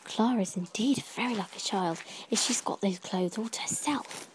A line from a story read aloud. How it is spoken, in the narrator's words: I whispered to Josephine